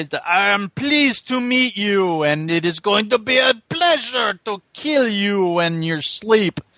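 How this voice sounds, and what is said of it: Exaggerated bad French accent. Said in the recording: “the worst French accent ever”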